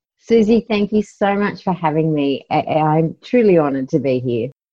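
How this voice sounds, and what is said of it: Australian accent. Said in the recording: “she's got a cool Australian accent”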